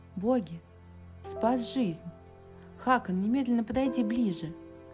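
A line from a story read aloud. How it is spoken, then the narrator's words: Startled exclamation. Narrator (Russian): Сив встрепенулась и воскликнула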